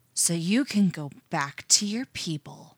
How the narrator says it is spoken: hisses, bending low

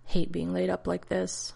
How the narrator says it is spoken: Ronan muttered

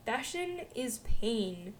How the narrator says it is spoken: he says as haughtily as he can, already dreading the sweat stains he's going to get on the fine linen

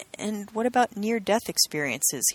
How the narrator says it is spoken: responded softly

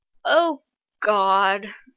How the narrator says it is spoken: John sighs

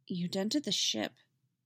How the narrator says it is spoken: Tim says, quietly

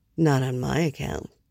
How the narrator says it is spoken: he murmured

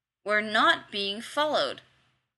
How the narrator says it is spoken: Kavanaugh said tightly

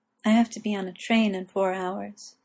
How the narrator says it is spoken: Gwen told Morgana softly

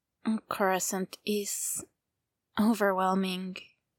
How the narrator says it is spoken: says softly

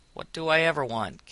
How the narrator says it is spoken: Gibbs growled

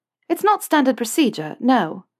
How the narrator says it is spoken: Hermione said cheerfully, as though they were engaged in nothing more than a conversation about ministry bureaucracy

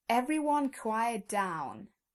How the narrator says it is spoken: yells

